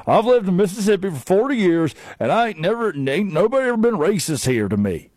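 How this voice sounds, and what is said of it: Imitates another person's voice. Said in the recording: “That's actually a pretty good Brandon Walker impression.”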